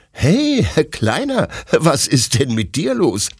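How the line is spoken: Laughing question. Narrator (German): fragt Detlef lachend

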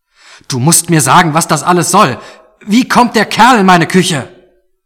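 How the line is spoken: Shouting back. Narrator (German): schrie zurück

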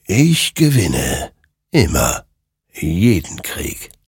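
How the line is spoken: Murmured. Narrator (German): murmelte

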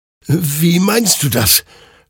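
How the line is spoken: Confused stammer. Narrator (German): stammelte Hektor verwirrt

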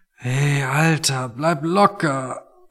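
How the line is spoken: Quiet, sound-sensitive. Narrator (German): meinte Toni und sprach leise, weil jedes Geräusch einfach noch zu viel für ihn war

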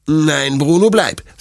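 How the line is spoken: Stern. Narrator (German): sagt Detlef streng

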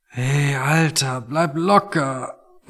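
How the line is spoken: Quiet, noise-sensitive. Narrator (German): meinte Toni und sprach leise, weil jedes Geräusch einfach noch zu viel für ihn war

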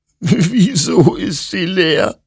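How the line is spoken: Sobbing. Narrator (German): schluchzte Hector

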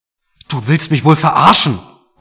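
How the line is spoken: Roaring through a splitting headache. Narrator (German): brüllte Mark jetzt, obwohl ihm dabei fast der Kopf explodierte

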